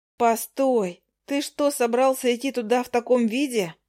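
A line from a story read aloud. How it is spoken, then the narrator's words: Exclaiming. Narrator (Russian): воскликнула я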